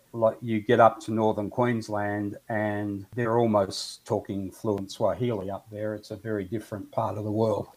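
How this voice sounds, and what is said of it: Australian accent. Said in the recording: “the other great insult for Australians is we're sometimes thought to be English ... the accent is very different”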